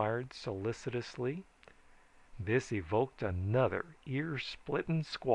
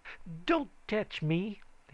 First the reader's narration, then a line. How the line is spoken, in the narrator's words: he said fiercely, painfully